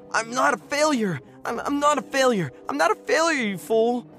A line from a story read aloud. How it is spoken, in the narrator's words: screaming